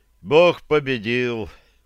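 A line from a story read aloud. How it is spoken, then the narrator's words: Weary voice. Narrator (Russian): утомленным голосом сказал Ян Краловец из Градка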